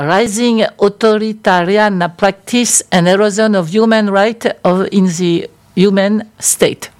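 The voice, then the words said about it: English spoken with French accent. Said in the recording (French): “j'ai un accent français”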